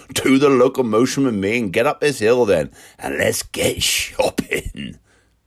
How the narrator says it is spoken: chuckled Cam

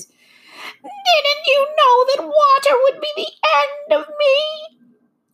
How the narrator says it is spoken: asked the witch in a wailing, despairing voice

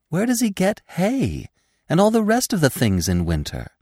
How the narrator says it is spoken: asked Feline eagerly

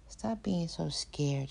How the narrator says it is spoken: muttered to herself

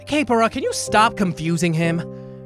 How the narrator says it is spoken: Navi asked irritably

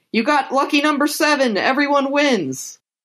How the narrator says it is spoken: all of the gamblers are shouting

